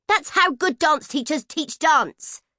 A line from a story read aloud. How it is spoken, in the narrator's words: shouted Nat